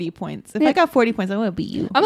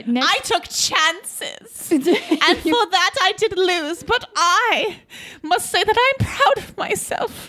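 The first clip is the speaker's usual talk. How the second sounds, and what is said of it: Put-on British accent. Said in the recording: “I don't know why I got all British. ... this accent”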